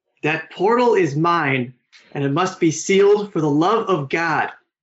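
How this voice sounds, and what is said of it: Imitates another person's voice. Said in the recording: “your best earnest impression of John Malkovich”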